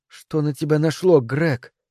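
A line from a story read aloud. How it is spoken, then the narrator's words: Quiet incredulous question. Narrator (Russian): тихо, как будто не веря самой себе, спросила она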